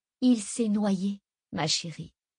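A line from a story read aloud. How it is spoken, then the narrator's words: Plain. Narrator (French): dit Nina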